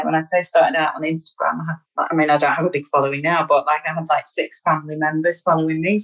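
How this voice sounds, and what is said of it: Northern English accent. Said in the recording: “you've still got your lovely northern accent”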